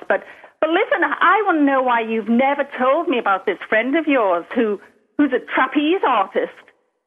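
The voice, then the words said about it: Liverpool English accent, Irish-sounding. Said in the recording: “Is she Scottish? ... I'm from Liverpool, England, but because it's so far north, it's a completely different accent than yours ... it's more Irish than anything else”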